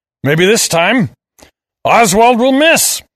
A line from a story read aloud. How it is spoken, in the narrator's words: roared